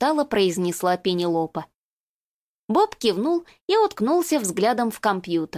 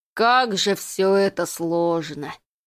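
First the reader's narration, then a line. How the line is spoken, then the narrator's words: Moaning. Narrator (Russian): простонал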